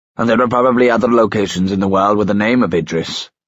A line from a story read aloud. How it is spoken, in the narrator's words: snapped the consul